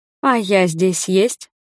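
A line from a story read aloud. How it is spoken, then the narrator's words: Plain. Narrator (Russian): спросила я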